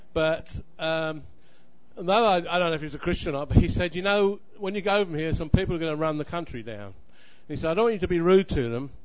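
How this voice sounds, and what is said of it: Non-American accent. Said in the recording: “I hope you can understand my accent because I haven't quite picked up the American accent”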